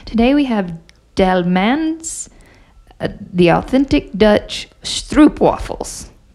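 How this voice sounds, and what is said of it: Put-on German accent. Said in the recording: “that turned into a German accent”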